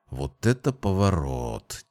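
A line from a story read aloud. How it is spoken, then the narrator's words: Quiet. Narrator (Russian): тихо произнес Джейсон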